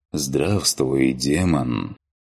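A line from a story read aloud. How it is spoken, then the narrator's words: Low, pleasant voice. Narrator (Russian): произнес низким приятным голосом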